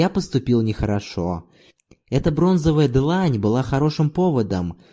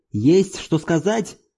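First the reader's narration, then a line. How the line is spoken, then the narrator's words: Shouted. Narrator (Russian): крикнул Зорбас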